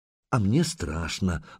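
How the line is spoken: Sighed. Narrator (Russian): вздохнула Лагодка

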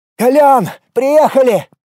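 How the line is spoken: Joyful yelling. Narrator (Russian): радостно заорал Влад

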